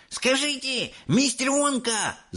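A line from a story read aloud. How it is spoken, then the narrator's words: Shouting. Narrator (Russian): закричал он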